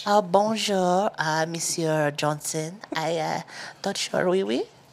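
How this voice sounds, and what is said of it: Put-on French accent. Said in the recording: “can you actually do her accent? ... do it in French.”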